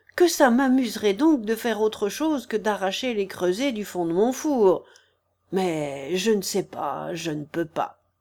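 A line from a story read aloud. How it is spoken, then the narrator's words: Sighing. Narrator (French): soupira Fauchard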